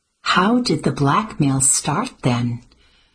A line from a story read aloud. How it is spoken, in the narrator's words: Addie continued gently